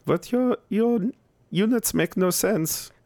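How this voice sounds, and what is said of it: Put-on European accent. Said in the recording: “My European Sorry. Accent right there.”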